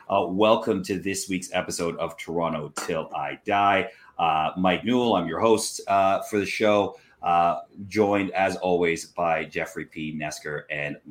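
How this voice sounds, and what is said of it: Rough, hoarse voice. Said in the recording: “My voice might sound a little rough.”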